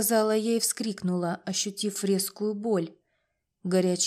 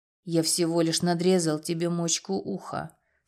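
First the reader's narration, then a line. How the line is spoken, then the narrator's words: Calm. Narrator (Russian): спокойно сказал Прохор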